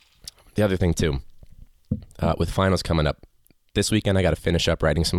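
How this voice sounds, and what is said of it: Usual voice. Nothing is said of it.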